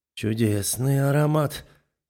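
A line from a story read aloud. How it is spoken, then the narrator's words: Tender. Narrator (Russian): ласково говорит он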